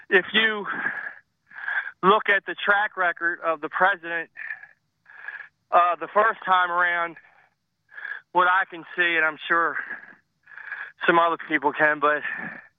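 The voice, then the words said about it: Out of breath, breathy speech. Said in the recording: “Sorry if I'm out of breath. I'm doing yard work.”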